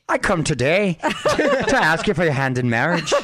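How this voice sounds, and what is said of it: Put-on Irish accent. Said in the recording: “Irish... That's not bad.”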